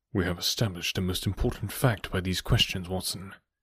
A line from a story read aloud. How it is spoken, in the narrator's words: he continued in a low voice